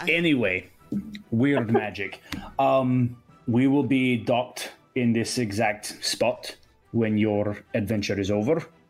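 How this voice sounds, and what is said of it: Speaks with an accent. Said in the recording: “my accent made it sound like I said sheet”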